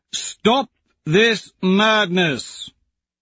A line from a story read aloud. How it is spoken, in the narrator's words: Arja, the largest and darkest of the Furies, bellows